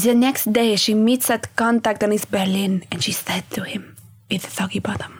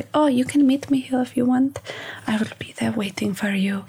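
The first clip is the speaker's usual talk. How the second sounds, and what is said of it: Put-on French accent. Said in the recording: “can we hear more of your French accent, please?”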